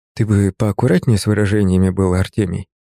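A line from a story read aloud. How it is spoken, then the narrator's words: Gentle reproach. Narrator (Russian): мягко, но с укором заметил я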